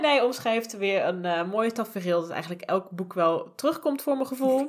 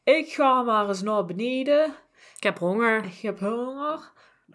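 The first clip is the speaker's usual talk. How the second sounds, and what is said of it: Odd put-on accent. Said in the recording (Dutch): “dat was een heel raar accent voor mij.”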